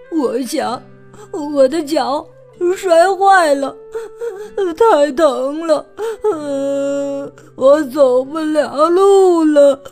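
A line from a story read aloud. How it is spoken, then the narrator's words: Crying. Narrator (Chinese): 弗洛格哭着说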